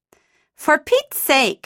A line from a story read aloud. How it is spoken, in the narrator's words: I exclaimed